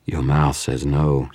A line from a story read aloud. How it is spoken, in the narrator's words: she purred